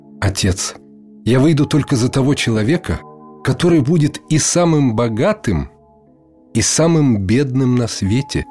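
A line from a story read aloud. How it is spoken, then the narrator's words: Plain. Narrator (Russian): сказала Мефтук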